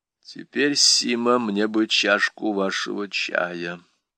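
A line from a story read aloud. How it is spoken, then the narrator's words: Muffled voice. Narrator (Russian): глухо сказал Гирин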